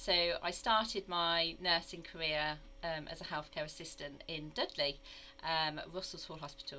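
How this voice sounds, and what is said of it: English Midlands accent. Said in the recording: “you can probably tell from my accent uh, that I'm actually not from the southwest, but I'm actually from the Midlands.”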